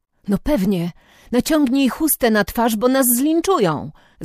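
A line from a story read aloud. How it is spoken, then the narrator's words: Boy calling out. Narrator (Polish): zawołał chłopak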